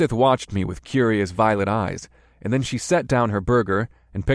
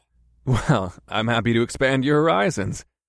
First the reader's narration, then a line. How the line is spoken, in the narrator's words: I chuckled